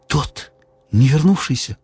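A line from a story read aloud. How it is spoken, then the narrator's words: Agitated whisper. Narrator (Russian): взволнованно шепнула Низа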